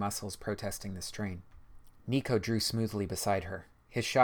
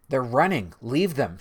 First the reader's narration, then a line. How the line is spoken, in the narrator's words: shouted Chloe